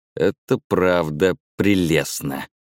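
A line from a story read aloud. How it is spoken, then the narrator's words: Growling. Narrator (Russian): прорычала Амида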